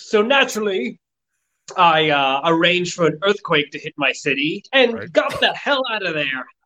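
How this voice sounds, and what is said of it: Character voice with put-on accent. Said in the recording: “I may have a different accent from last time.”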